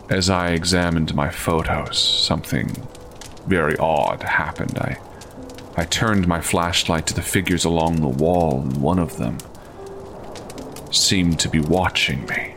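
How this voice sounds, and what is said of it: Low, quiet male voice. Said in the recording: “the man began speaking in a low voice”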